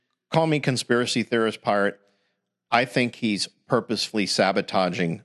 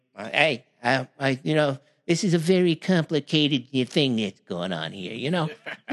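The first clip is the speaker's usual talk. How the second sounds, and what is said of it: Imitates another person's voice. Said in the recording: “my Donald Trump here, you know, my worst impression of Donald Trump”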